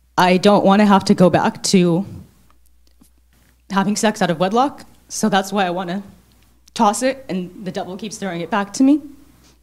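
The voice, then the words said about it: Tearful, emotional voice. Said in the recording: “getting emotional”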